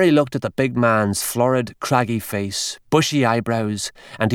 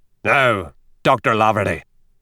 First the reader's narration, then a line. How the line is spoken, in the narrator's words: growled O'Reilly